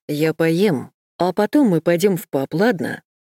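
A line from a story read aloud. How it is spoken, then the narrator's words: Plain. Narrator (Russian): спросил он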